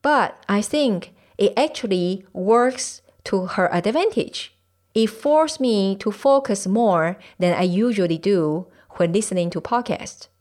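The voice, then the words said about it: Thick accent. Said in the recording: “is concerned about her thick accent”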